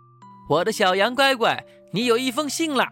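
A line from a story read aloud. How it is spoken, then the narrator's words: Calling out. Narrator (Chinese): 羊爸爸叫着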